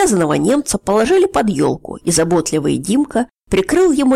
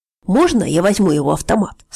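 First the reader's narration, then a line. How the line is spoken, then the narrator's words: Plain question. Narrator (Russian): спросил Старкова Олег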